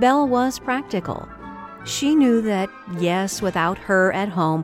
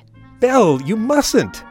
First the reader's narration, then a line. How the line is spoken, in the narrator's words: her father cried